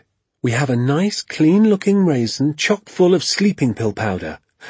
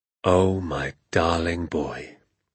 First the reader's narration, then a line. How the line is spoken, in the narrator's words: he said softly